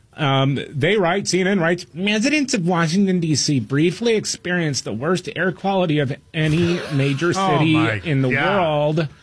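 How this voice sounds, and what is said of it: Whiny mocking put-on voice. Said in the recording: “I'm going to read this in my whiny liberal voice.”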